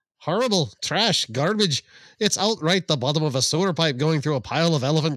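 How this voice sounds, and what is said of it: Put-on Irish accent, sounds Scottish. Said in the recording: “You gotta say it with an Irish accent... my Irish always sounds Scottish.”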